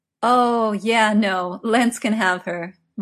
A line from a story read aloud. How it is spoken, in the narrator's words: Merlin laughed